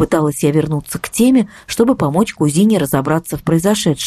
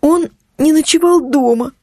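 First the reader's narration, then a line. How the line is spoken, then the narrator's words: Trembling voice. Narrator (Russian): проговорила Настя дрожащим голосом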